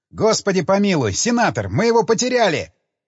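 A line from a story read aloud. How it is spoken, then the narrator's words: Shouted into ear. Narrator (Russian): прокричал я на ухо Джек Строу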